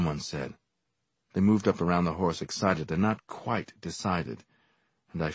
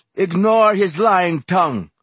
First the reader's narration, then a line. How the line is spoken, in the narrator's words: Ross shouted